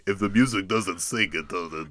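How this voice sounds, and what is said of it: Imitates another person's voice. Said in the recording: “that was just a really good impression”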